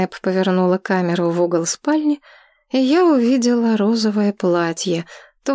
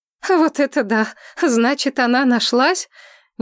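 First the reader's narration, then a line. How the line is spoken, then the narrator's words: Nervous laughter. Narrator (Russian): Я стала нервно смеяться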